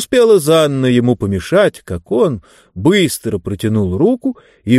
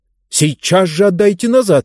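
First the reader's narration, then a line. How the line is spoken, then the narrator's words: Angry shout. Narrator (Russian): гневно закричала она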